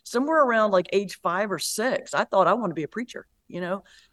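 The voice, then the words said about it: North Carolina accent. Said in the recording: “you did pick up on an accent. I'm from North Carolina originally.”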